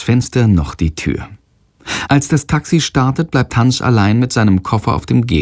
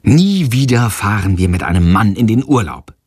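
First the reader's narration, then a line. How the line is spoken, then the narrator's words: Plain. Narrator (German): sagt Freier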